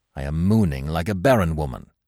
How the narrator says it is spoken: he exclaimed

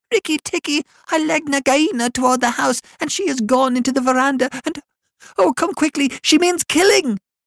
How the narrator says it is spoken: Darzee's wife screaming

